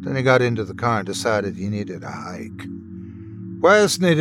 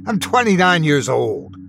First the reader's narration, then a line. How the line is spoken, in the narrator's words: He bit back the urge to scream